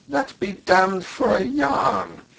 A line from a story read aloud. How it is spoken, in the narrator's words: exclaimed the other in unfeigned astonishment